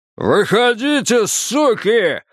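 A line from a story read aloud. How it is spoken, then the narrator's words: Bellowing, head thrown back. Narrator (Russian): заорал Джо, запрокинув голову и выпучив глаза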